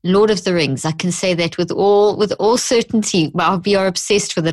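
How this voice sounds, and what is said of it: Mixed South African English accent. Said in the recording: “a funny accent, a whole mixture”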